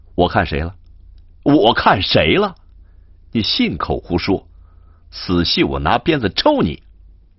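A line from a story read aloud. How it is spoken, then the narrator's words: Laughing. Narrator (Chinese): 燕西笑道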